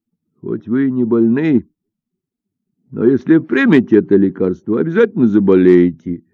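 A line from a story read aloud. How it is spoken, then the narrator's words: Laughing. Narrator (Russian): засмеялся Додзигун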